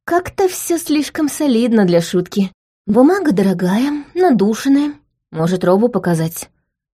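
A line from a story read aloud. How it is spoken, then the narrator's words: Confused suggestion. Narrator (Russian): предложила я растерянно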